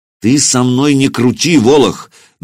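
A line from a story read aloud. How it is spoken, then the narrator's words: Angry, through gritted teeth. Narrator (Russian): наливаясь гневом, процедил Сергей Иванович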